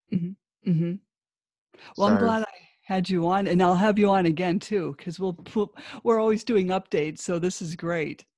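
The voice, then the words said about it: Strong American accent. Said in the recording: “she's got quite a strong American accent”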